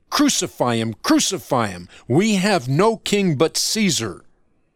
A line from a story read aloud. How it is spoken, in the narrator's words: changed to screams of